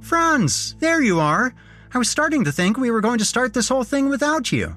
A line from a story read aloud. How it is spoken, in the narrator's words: Taylor shouted